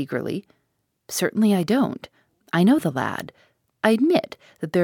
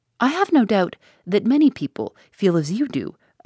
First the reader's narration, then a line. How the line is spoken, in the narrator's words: I exclaimed